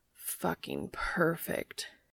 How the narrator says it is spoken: Cass groans

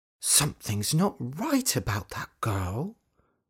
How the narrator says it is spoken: muttered Dorothy

